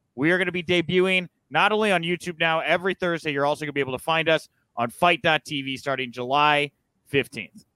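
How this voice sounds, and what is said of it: Formal announcer voice, emotionless. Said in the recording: “I put on my professional voice there ... I lose emotion. I must present this very important information.”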